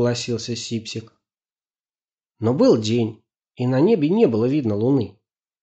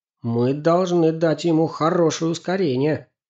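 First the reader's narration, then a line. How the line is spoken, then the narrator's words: Plain. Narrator (Russian): сказал Максим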